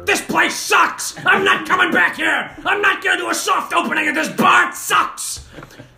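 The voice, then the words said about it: Shouting angry TV host impression. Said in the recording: “I am John Tafferty, whatever his name is, from Bar Rescue. ... That's my impersonation of that guy.”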